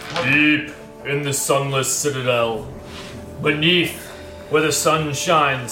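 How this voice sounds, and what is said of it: Weird put-on narrator voice. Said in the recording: “that's a like weird voice you're doing.”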